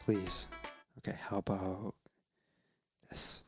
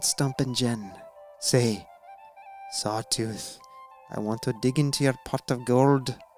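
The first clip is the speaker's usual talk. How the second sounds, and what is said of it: Put-on Irish accent. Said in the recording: “in an Irish accent”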